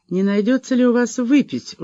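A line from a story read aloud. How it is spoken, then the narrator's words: Calm question. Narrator (Russian): уже вполне спокойно спросила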